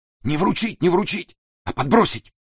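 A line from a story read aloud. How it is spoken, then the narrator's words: Nervous shout, sick man. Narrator (Russian): нервно выкрикнул больной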